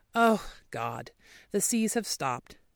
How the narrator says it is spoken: she sighed

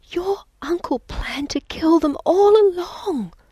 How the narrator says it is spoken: whispered

